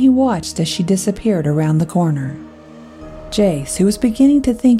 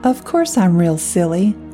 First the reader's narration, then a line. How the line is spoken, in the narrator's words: The little girl giggled and said